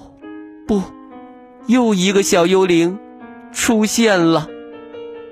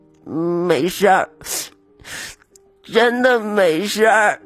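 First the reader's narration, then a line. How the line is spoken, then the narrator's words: Quiet sobbing. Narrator (Chinese): 他低声抽泣着说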